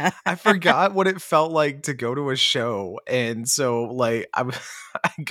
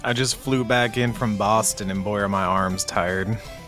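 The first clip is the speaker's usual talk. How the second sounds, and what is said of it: Put-on tired Texan accent. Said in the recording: “this is my attempt at a tired Texan accent”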